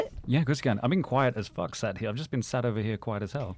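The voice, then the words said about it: Speaks with a noticeable accent. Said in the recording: “you have the best accent of all of us”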